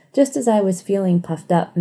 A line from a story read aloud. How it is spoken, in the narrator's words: Matt chuckled